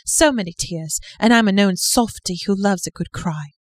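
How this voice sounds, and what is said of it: Made-up put-on accent. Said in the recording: “I have to use a different accent because she uses hankies ... are you doing a southern accent or are you doing like a British accent? ... I'm just making my own thing.”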